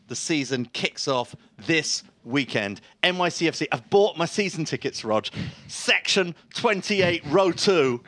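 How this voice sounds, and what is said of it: English accent. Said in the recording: “that English accent”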